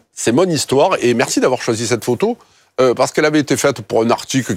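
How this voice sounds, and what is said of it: Strong Marseille southern French accent. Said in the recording (French): “mon authenticité s'entend toujours, pique un peu les yeux, mon accent, c'est un peu l'ail ... Les quartiers nord, Marseille”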